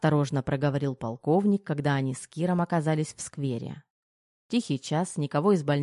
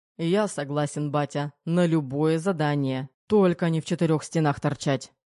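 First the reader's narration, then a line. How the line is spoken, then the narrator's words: Grumbling. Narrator (Russian): проворчал Терехов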